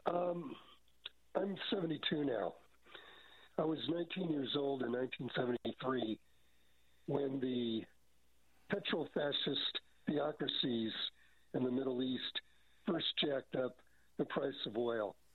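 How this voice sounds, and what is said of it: Rough, congested voice. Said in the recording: “Kind of getting over a cold here, so my voice isn't great”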